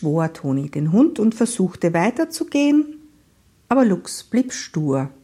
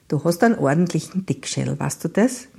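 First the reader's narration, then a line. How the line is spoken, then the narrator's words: Murmuring. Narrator (German): murmelte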